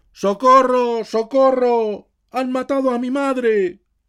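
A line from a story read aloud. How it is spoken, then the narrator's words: Frightened shout. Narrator (Spanish): gritó el tonto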